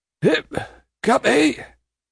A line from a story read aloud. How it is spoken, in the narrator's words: a suppressed voice cries